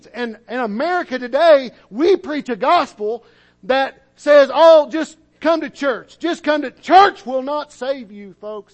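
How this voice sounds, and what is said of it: Yelling. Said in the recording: “sorry for yelling”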